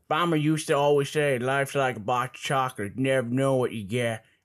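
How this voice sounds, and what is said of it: Forrest Gump impression. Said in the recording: “my Forrest Gump impression, but people said it sucked. I thought it sounded pretty good.”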